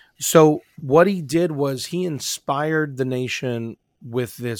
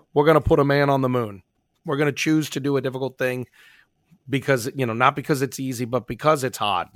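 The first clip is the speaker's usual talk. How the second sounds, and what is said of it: Poor JFK impression, East Coast accent. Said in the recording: “the worst JFK impression ever ... you got a little bit of that accent in there ... It's got that like East Coast vibe”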